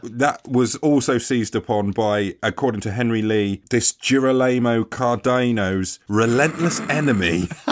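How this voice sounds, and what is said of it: English accent, no Italian twang. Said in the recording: “you've made him sound like he's a sort of East London mechanic ... It's beautiful in your accent. The lack of effort put into giving it an Italian or Spanish twang.”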